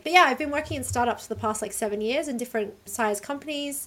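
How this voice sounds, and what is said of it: Soft Australian accent, London-tinged. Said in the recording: “I'm Australian, you can probably tell from my accent, although I actually find Americans lately really get confused about whether or not I'm British. It's pretty soft. That's quite a lot of London”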